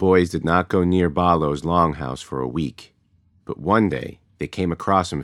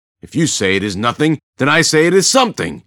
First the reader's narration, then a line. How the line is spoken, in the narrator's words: Balo spat